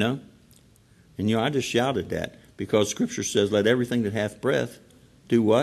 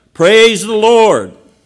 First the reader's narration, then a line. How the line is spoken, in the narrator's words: She would stand on her front porch and shout